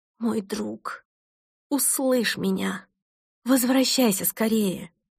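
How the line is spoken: Desperate, uncontrolled cry. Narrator (Russian): Перестав контролировать себя, я в отчаянии воскликнула

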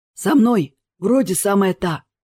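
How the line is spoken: Hoarse voice answering. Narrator (Russian): ответил хриплый голос

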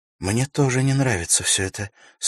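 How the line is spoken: Worried tone. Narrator (Russian): сказала Ивенлин обеспокоенным тоном

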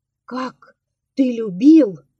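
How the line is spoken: Exclamation. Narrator (Russian): воскликнула она

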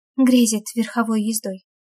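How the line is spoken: Dry whisper. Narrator (Russian): сухим шепотом откликается Вика

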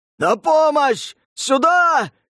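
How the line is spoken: Yelling over screams. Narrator (Russian): заорал бородач, перебивая вопли безногих

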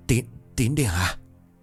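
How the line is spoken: Whisper. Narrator (Vietnamese): tiếng thì thào

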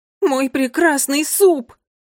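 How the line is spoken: Shouting. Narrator (Russian): закричал гурманск Никс

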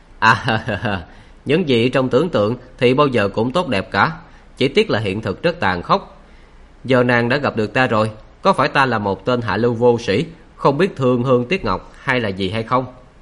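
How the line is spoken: Giggling, shaking with laughter. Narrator (Vietnamese): Khắc Lý Tư Đế bật tiếng cười khúc khích, cười đến nỗi run cả người

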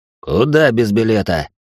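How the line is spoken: Menacing question, man. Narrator (Russian): грозно спросил один из мужчин

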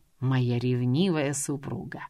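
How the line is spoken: Purr. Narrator (Russian): мурлыкнул Стивен

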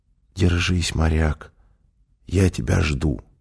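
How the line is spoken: Anxious whisper. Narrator (Russian): Все дни, пока Роберт Беллами балансировал на грани жизни и смерти, Сьюзен шептала ему

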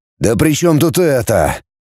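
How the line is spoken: Anguished father. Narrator (Russian): страдающим голосом сказал отец

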